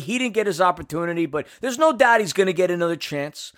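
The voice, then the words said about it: Philly accent slipping out, Pacino-esque. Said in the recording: “accent come out right there when he said opportunity ... some sort of Pacino-esque little accent ... That was the New York Philly coming out there ... definitely the Philly accent happening”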